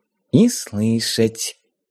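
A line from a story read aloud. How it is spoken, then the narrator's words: Very quiet rustling whisper. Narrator (Russian): тихо-тихо прошелестела Дарья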